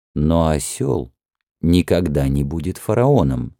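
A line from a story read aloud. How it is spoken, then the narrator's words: Calm minister. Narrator (Russian): спокойно ответил министр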